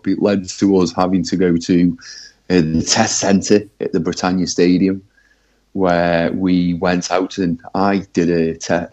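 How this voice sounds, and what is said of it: Congested, flu-affected voice. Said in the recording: “you might be able to hear in my voice, I'm a bit flued up.”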